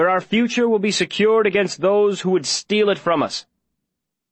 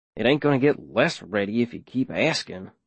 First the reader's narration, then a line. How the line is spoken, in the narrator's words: Davy mumbles